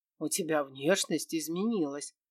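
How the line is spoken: Snorting smirk. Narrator (Russian): хмыкнул Кир

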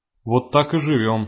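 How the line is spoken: Plain. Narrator (Russian): сказал он

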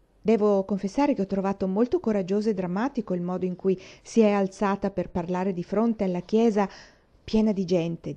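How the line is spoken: Plain. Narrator (Italian): disse

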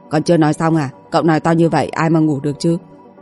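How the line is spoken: Cold. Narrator (Vietnamese): Đôi mắt lạnh lùng của anh nói

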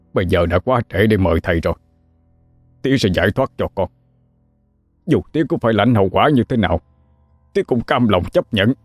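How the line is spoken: Harsh, gritted reply. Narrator (Vietnamese): Ông Hai cho gằn giọng đáp lại lời con

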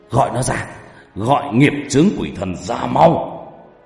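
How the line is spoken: Angry. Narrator (Vietnamese): giận dữ

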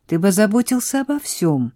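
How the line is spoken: Exclaiming. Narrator (Russian): воскликнула она

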